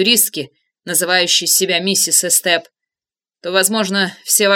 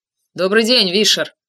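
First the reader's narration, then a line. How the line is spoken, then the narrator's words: Indifferent tone. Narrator (Russian): сказал он равнодушным тоном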